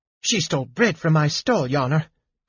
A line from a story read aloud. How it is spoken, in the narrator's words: cried the baker